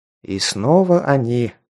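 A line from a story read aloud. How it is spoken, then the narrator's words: Sighing. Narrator (Russian): вздохнул я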